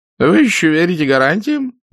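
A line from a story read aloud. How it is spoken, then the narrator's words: Chuckling. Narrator (Russian): Доктор хохотнул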